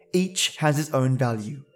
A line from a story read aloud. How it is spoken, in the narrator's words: said the wagon